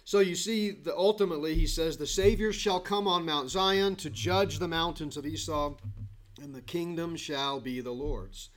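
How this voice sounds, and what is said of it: Hoarse, strained voice. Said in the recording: “I lost my voice Wednesday night ... Thursday I could barely talk, and it got better the last couple days. Now all of a sudden it's getting worse.”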